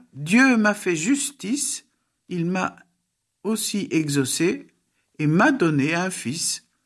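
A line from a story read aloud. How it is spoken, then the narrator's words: Exclaimed. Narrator (French): Rachel s'écria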